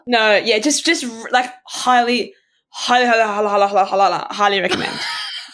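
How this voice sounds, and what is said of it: Rapid repeated words, garbled. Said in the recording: “was trying to say it really fast, and a lot of it, it came out like that”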